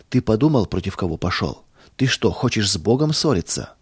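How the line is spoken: Calm. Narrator (Russian): спокойно сказал

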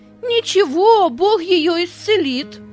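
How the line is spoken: Half-joking shout. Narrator (Russian): То ли серьезно, то ли шутя, выкрикнул Петя

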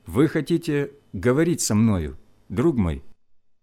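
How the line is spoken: Calm question. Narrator (Russian): спросил я, спокойно, не обращая внимания на его грубость

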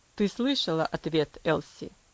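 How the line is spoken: Cold father's voice. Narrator (Russian): Холодно произнес отец

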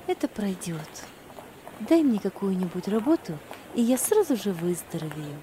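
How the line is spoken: Plain. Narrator (Russian): ответила Ева

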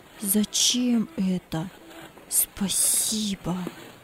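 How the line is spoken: Whisper. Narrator (Russian): он только шептал

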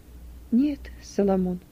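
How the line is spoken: Quiet reply. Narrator (Russian): ответила тихо Юдиф

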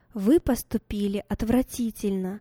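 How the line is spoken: Plain. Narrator (Russian): сказала мама

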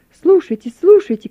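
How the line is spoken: Prisoners shouting. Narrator (Russian): кричали проснувшиеся заключенные

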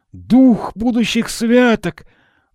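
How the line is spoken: Exclaiming. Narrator (Russian): воскликнул Скрудж

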